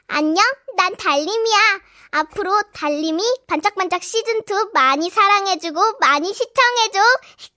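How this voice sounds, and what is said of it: Cartoon voice of a six-year-old child. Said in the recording (Korean): “진짜 그 만화 볼 때 나오는 딱 그런 목소리 같네요. 너무 잘하세요 ... 방금 6살짜리 목소리였죠?”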